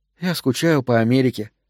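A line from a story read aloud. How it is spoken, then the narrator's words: Sighing. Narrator (Russian): вздохнула она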